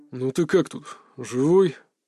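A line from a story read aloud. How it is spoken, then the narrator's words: Father grumbling. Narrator (Russian): проворчал отец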